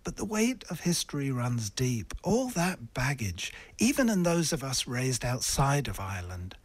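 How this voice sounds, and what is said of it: English accent. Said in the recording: “a radio presenter with an English accent working here in Ireland”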